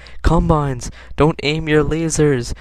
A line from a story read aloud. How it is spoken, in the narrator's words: yelled Mom